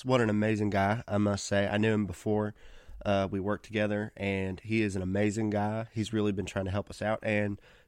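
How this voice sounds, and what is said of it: Weird, congested-sounding voice with sniffles. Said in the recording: “I sound really weird. My allergies are really bad this time of year, so if you ever hear like a slight sniffle”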